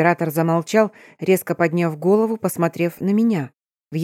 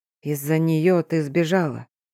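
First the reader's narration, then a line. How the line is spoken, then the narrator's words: Quiet. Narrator (Russian): тихо произнес князь Вэй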